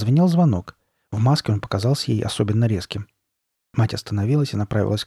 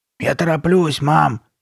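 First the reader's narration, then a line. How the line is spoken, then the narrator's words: Hoarse low shout. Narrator (Russian): крикнула Карли Бет своим сиплым низким голосом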